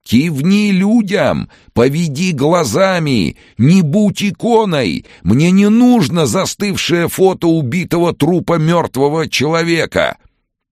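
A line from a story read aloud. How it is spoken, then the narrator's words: Yelling at full lungs. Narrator (Russian): громко, что есть мочи, заорал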